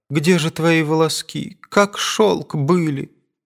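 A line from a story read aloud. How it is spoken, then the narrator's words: Murmuring through tears. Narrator (Russian): приговаривала она сквозь слезы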